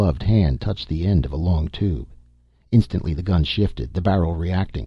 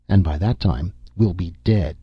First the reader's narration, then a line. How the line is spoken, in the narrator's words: Nasha said bitterly